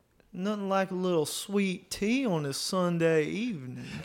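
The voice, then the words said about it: Refined Southern US accent, effeminate. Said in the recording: “give us that type of accent ... A refined Southern gentleman ... He gave us Southern Gentlewoman, but he did that one well.”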